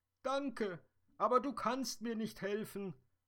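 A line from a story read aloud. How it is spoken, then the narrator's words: Sobbing dream fairy. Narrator (German): schluchzte die Traumfee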